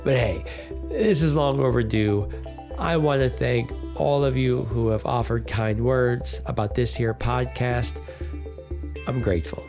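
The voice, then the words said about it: Sick, congested voice from a cold. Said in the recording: “how awful my voice sounds ... sorry about the voice ... evidently so is a nasty cold”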